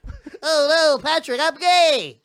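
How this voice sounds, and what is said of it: Imitates a silly cartoon voice. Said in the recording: “stupid voice ... Oh, gay SpongeBob.”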